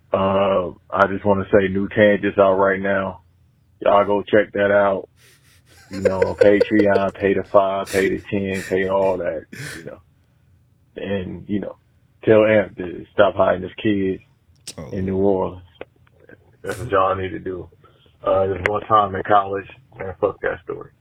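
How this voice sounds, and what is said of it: Poor impression of a podcast host. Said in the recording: “rate his beat out impression... that shit is a 3. That's piss poor.”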